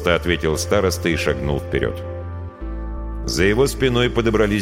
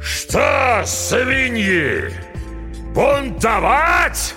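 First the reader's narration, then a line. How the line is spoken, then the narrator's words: Roaring. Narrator (Russian): взревел Смирягин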